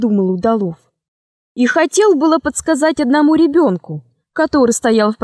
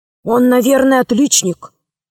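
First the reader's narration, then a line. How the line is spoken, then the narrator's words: Quiet. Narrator (Russian): сказал тихо Удалов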